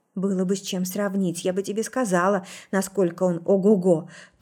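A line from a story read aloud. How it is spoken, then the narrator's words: Mumbled. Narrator (Russian): промямлила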